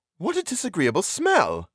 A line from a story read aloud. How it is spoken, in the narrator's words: exclaimed